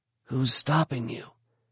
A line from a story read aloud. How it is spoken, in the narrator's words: Ben whispered back